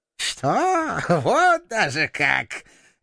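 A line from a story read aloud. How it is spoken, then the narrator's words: Choking with laughter. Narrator (Russian): Глава клана не сразу смог говорить от душащего его хохота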